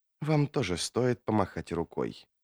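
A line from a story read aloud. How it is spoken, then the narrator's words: Soft, melodic voice. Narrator (Russian): проговорила она негромко, и ее голос прозвучал, как стирийская песня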